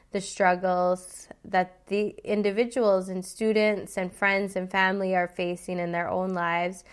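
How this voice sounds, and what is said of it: Hoarse, nasal unwell voice. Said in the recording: “I'm just recovering from COVID, so excuse my voice. ... if I sound like Janice from Friends”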